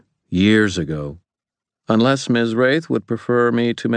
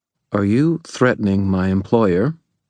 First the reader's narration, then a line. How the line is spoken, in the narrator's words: Freydis asked in a very level tone